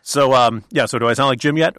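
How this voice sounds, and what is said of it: Imitates another person's voice. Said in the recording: “this is such a good impression”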